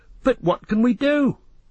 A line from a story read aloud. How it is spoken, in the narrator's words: cried Pippin miserably